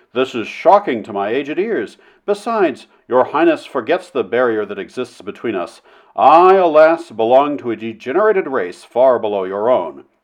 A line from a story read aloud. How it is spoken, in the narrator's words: Flynn exclaimed, coloring very deeply indeed